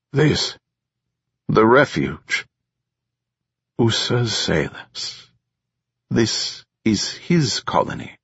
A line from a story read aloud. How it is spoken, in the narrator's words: Zo asked, speaking slowly